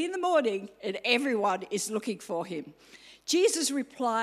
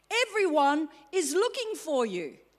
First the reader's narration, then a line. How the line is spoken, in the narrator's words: they exclaimed